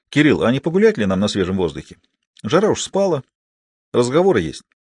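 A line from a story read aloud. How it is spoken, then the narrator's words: Indifferent tone. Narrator (Russian): Лаврик предложил совершенно безразличным тоном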